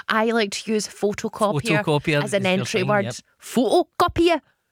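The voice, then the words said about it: Poor put-on Geordie accent. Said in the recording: “doing your best Geordie accent ... It's not good. I'm not good at a Geordie accent.”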